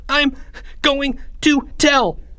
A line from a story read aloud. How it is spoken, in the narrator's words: Charlie stuttered